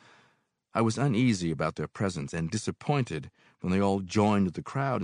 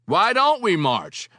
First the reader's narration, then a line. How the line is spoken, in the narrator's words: I yelled out to the sidewalk before I had time to think